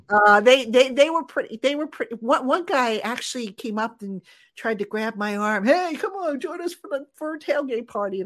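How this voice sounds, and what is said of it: New Jersey accent. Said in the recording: “you can tell I have a New York accent. When in fact I have a Jersey accent. At least that's what I've been told.”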